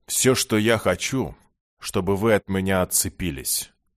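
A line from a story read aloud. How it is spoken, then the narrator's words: Cold interruption. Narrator (Russian): холодно перебил жрец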